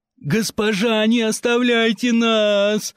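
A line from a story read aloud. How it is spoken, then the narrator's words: Several voices wailing. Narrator (Russian): взвыло сразу несколько голосов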